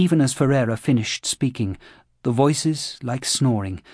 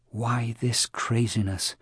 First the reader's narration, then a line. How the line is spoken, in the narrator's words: murmured a voice that was not his own